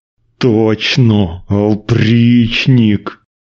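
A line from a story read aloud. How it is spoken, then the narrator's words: Strained through gritted teeth. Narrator (Russian): еле выговорил он сквозь зубы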